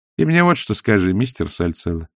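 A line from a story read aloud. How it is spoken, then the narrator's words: Calm. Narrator (Russian): спокойно начала она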